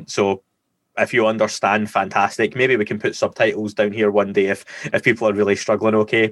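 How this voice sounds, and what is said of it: Scottish accent, mumbled, slowed speech. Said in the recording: “I speak like I've got a potato in my mouth. I've got a dodgy Scottish accent ... this is me speaking like slowing down”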